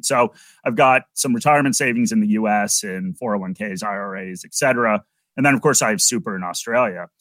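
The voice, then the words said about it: American English accent. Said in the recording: “you can probably tell from my accent that I'm originally from the US”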